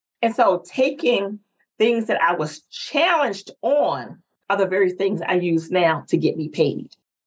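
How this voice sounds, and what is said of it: North Carolina Southern accent. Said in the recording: “my accent sometimes held me back ... I plan to maintain my accent ... the girl who was born and raised in North Carolina”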